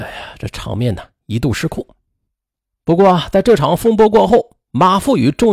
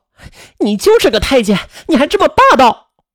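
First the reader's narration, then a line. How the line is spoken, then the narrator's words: Frantic shouting. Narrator (Chinese): 发疯似的，嘴里边还嚷嚷道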